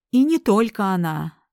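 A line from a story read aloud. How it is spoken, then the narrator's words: Mocking. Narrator (Russian): насмешливо пояснил Рипли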